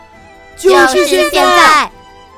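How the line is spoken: Crowd shouting loudly. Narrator (Chinese): 群众高声地大喊着

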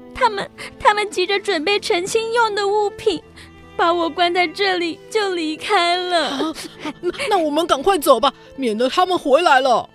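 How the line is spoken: Crying girl. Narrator (Chinese): 少女紧紧抱住索亚，哭着说

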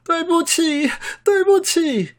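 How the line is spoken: Crying out. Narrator (Chinese): 在哭喊

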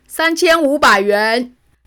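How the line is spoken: Shout from crowd. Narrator (Chinese): 人群中有个声音喊着

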